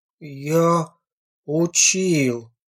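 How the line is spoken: Tragic voice. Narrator (Russian): сказал Леха таким трагическим голосом

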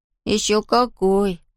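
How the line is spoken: Sighing. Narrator (Russian): вздохнул Том

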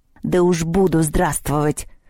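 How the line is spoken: Hissing. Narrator (Russian): прошипел в ответ кабинетный

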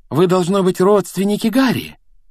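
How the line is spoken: Exclaiming. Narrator (Russian): воскликнула миссис Уизли

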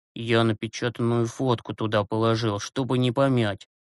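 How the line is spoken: Quiet reply. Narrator (Russian): тихо ответил Юрасик

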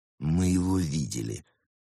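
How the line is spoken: Through teeth, tearful. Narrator (Russian): процедил сквозь зубы Марсель, слезоточив

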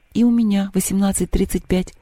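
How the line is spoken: Quiet. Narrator (Russian): тихо сказала Лёля

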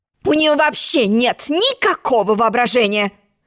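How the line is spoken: Grumbled. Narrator (Russian): буркнула черная королева

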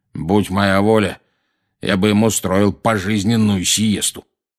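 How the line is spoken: Grumbling man. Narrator (Russian): проворчал дядя Вернон

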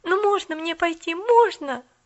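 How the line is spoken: Pleading. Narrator (Russian): взмолилась Поллианна

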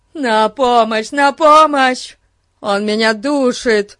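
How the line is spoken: Panicked yelling. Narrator (Russian): орал один из парней

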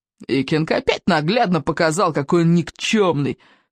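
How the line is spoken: Triumphant snort. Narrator (Russian): торжествующе фыркнул Сморкало

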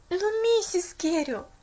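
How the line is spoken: Desperate exclamation. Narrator (Russian): наконец воскликнула Поллианна в отчаянии

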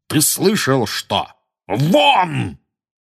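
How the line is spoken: Startlingly loud bark. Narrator (Russian): гаркнул дядя Вернон так, что даже тетя Петунья и Дадли подскочили

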